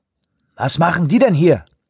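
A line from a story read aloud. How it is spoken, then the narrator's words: Called out. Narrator (German): rief Shoemaker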